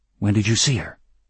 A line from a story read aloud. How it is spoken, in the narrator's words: he asked anxiously